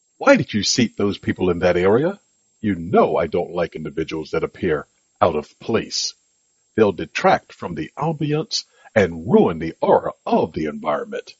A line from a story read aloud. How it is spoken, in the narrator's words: asked in a very sharp tone